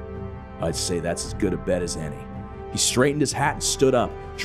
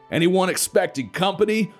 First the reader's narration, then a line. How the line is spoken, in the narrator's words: Florida yelled over the roar of the jeep's engine